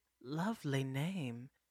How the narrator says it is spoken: Esperanza purred

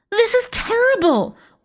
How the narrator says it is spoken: wailed Pink

